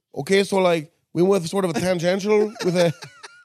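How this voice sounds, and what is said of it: Put-on Mexican accent. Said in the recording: “do that voice... specifically the guy from West Coast Customs... saying tangential in a Mexican accent”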